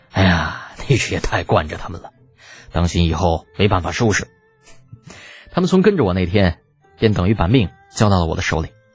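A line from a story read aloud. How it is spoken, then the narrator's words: Sighing. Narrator (Chinese): 苏烈叹道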